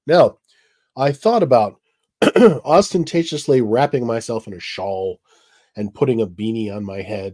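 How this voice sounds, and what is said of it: Congested, sick-sounding voice. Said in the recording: “As you can probably tell by listening to me, I have a cold.”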